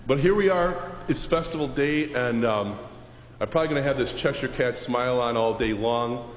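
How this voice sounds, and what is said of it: Low, rough voice with a cold. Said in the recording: “my voice is a little bit down here. I got one of those summer colds ... It's sounding pretty low”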